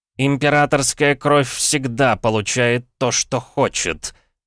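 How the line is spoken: Angry words through teeth. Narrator (Russian): зло процедил принц Юкихита

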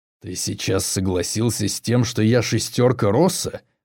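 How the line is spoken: Growled. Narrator (Russian): прорычал Боков

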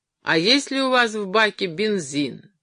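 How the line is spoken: Shout. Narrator (Russian): крикнул

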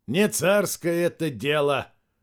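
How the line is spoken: Wry snort. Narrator (Russian): хмыкнул Дорохов

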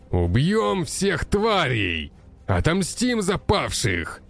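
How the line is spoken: Barked battle cry. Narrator (Russian): рявкнул он

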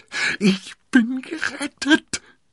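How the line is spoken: Screaming. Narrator (German): schrie sie

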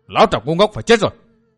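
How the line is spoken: Loud roar. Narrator (Vietnamese): U Hồn Cốc Chủ gầm to

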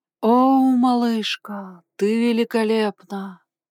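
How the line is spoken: Moaning. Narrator (Russian): простонала Крис

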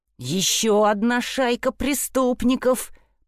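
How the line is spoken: Grumbling mutter. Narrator (Russian): пробурчал Фред

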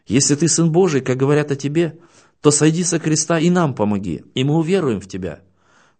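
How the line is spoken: Laughing speech. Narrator (Russian): Он смеялся и говорил

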